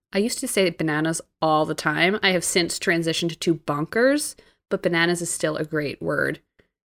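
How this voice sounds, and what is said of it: New Jersey accent. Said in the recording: “Your accent is nice for bananas ... Your new Jersey accent ... I feel like you say it weird”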